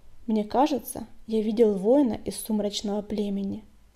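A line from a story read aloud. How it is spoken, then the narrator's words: Plain. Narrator (Russian): сказал он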